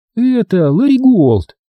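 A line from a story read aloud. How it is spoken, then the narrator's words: Sudden giggle. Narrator (Russian): Она неожиданно хихикнула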